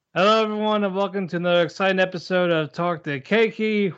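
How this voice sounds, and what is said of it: Tired, unenthusiastic flat delivery. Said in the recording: “you sound so excited ... We are tired. ... We are cranky. ... we we are exhausted. We are cranky.”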